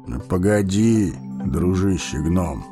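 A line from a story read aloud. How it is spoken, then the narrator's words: Calm old man. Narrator (Russian): спокойно проговорил старец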